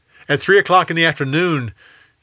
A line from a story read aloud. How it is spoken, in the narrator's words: Jesus cried out